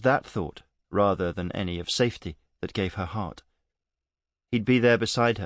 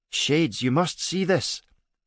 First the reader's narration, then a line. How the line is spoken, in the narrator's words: Vika yelled up to them, her voice full of wonder